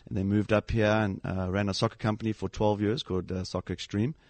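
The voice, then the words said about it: South African accent. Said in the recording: “This is definitely not the Connecticut twang. This is a South African accent”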